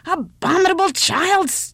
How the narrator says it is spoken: shrieked the old woman

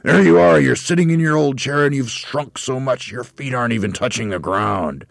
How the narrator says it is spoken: Twit shouted

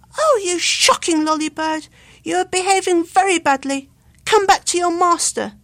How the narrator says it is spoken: Luke cried out

